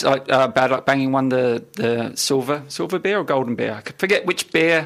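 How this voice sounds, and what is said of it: New Zealand accent. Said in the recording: “Excuse the New Zealand accent”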